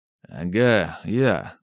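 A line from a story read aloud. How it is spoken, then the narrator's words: Tired grumble. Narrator (Russian): устало буркнул я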